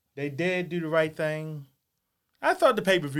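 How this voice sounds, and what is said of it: Usual voice. Nothing is said of it.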